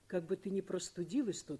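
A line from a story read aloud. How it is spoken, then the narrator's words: Plain. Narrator (Russian): сказал он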